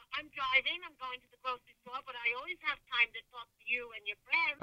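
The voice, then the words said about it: Rhode Island accent, like Boston. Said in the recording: “this is the best accent ever ... Is that the Rhode Island accent? ... Yeah, it's like a Boston accent.”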